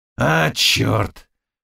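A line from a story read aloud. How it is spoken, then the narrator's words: Muttered. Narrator (Russian): пробормотал Заглоба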